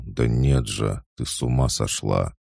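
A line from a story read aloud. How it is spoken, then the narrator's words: Surprised mumbling. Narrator (Russian): удивился, забормотал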